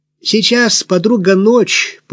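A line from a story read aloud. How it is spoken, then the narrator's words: Hoarse smoky shrill voice. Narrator (Russian): пояснила она своим сиплым, прокуренным голосом, в котором прорывались неприятно визгливые ноты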